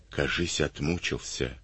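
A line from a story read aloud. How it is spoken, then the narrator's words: Whisper. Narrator (Russian): шепнул ефрейтор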